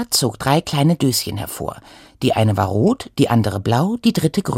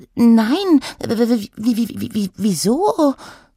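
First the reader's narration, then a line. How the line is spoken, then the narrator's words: Stammered. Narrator (German): stotterte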